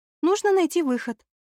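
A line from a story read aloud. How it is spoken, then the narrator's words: Sigh. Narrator (Russian): вздохнула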